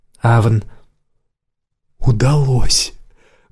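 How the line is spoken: Quiet imitated harsh accent. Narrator (Russian): Акцент у него был резкий, Лайла, подражая ему, негромко произнесла

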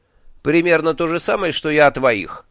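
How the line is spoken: Wry snort. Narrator (Russian): хмыкнул

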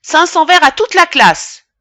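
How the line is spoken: Furious exclamation. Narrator (French): exclamé d'une voix furieuse

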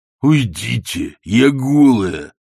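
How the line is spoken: Growled. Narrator (Russian): зарычал третий

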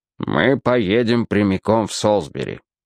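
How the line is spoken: Stern repetition. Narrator (Russian): строго повторил он

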